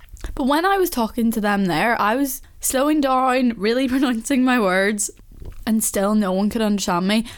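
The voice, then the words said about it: Belfast accent. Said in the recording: “my accent ... someone else from Belfast, because you know yourself, like, you do go a bit more into your accent”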